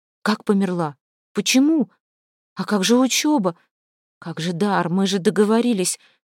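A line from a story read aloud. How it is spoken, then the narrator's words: Bewildered, despairing questions. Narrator (Russian): растерянно спрашивала Настя, проваливаясь в бездну отчаяния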